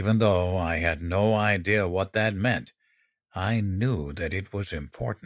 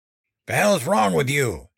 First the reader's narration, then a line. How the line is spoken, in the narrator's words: he barked